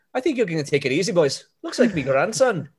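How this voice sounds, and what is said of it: Attempted Irish accent, not convincing. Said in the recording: “Can't do an Irish accent. That's the hardest.”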